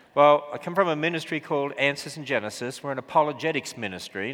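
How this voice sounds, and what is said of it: Australian accent. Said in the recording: “I was from Australia ... with an Australian accent”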